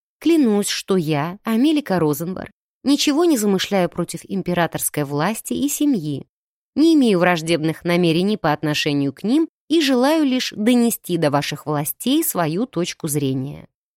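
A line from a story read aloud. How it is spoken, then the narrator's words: Calm. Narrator (Russian): произнесла я спокойно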